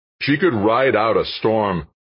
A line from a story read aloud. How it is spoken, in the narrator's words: Dan shouted over the rising wind